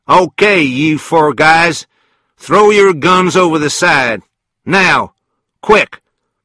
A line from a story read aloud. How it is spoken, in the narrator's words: a voice from the back of the train, Felix Leiter's voice, called out